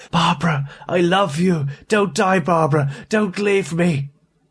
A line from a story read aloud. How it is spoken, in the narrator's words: A sudden final surge of something akin to hope made him call out raspingly, urgently